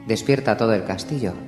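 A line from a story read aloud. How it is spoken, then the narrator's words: Plain. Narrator (Spanish): dijo Theon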